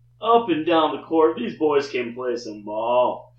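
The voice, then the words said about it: Poor impression of a sportscaster. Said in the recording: “his best Dickie V impersonation ... That was poor. That was a poor effort.”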